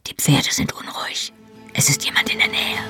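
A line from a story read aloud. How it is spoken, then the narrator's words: Whispered reply. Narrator (German): flüsterte zurück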